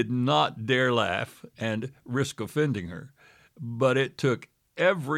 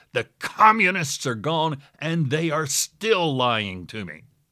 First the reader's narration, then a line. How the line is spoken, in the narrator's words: shouted